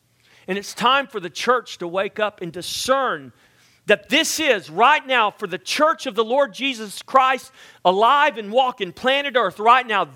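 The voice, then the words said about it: Loud, near-yelling preaching voice. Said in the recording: “Some people would say I'm yelling right now. Does it sound like I'm yelling?”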